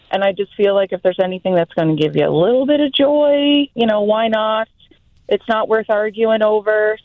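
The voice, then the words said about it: Strong Canadian accent. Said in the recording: “my accent, my Canadian accent's coming in strong.”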